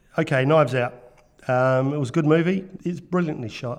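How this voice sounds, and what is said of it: New Zealand accent. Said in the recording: “I'm afraid it's another Kiwi accent all the way from New Zealand”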